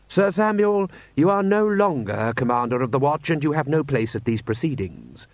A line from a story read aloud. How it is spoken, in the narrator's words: said Rust sharply